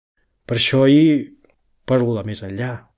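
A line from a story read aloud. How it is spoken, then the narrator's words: Said smiling. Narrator (Catalan): feu ella somrient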